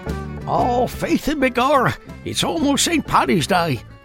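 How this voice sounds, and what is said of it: Terrible put-on Irish accent. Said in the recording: “that was a terrible Irish accent”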